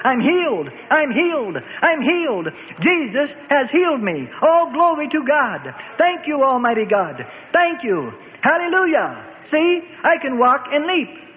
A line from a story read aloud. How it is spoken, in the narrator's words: he mingled the two and shouted